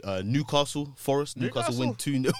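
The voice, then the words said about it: Put-on regional accent. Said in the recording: “That was a good accent.”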